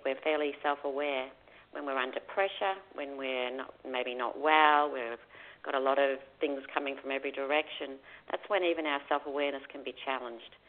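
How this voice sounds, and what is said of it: Australian accent. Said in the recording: “a wonderful sounding accent. You're originally from Australia”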